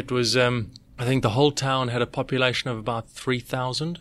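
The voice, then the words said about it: Non-South-Australian accent. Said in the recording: “your accent doesn't say I'm from South Australia”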